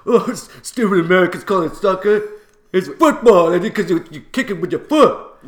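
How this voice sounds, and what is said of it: Indignant imitated voice, English-sounding. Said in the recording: “Was that an English accent? ... No. That was just someone being a bit indignant.”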